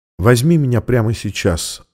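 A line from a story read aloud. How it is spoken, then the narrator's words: Quiet answer. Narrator (Russian): ответила она тихо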